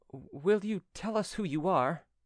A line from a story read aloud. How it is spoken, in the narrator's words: Then the former stammered